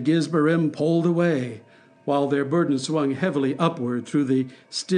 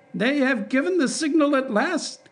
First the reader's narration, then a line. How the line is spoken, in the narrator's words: cried the Pharisee